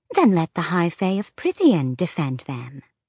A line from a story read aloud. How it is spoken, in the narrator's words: The Golden Queen sweetly parried with